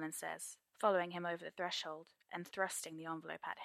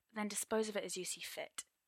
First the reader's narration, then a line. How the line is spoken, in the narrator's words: Arthur grunts